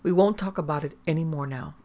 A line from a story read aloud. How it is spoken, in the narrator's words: Seeing Hyacinth so hysterically excited, Laura said firmly